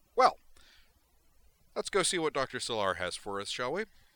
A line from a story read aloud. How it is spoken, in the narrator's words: said in a loud voice